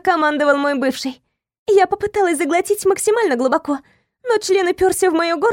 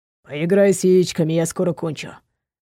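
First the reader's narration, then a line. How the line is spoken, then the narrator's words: Curt, clipped. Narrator (Russian): бросил отрывисто Никита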